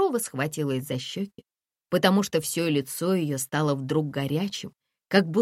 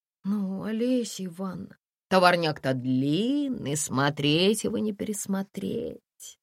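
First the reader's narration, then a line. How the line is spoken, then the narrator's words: Drawling. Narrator (Russian): протянула Олеся Ивановна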